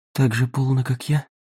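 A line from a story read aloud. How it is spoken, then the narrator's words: Whisper. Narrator (Russian): прошептала она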